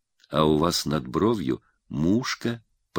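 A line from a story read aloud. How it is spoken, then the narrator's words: Laughing whisper. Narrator (Russian): прошептал он смеющимся шепотом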